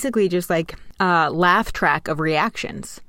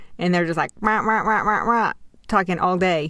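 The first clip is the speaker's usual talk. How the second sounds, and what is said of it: Babbling imitation like the Peanuts teacher. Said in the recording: “It's a good impression... They're basically the Snoopy teacher.”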